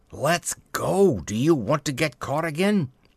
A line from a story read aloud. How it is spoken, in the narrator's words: the third man cried out with a sort of subdued fury